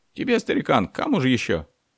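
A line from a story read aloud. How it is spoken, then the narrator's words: Shrill squealing voice. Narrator (Russian): Голос второго отличался уже не хриплым, а каким-то визгливым тембром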